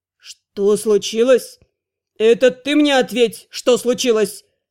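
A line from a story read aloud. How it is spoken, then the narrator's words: Barking shout, director. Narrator (Russian): гаркнул директор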